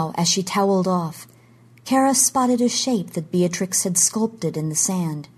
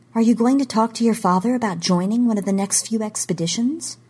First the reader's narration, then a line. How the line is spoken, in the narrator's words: Kara said